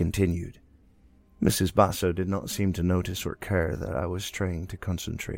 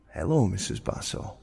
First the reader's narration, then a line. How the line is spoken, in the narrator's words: I calmly replied